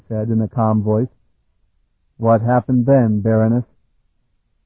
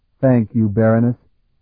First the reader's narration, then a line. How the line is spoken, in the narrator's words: Sparhawk said, his voice still steady